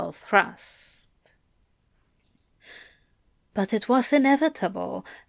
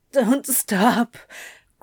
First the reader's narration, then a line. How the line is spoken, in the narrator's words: Crowley sobbed